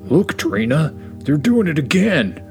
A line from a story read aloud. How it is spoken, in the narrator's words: Rexy exclaimed